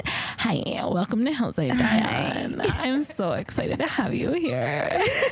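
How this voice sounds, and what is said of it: Put-on sultry, sexy voice. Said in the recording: “if my voice was hotter? ... Oh, that was hot. ... trying to sound hot”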